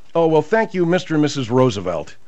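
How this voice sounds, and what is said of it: Sarcastic tone. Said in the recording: “your sarcasm really... I'm being sarcastic.”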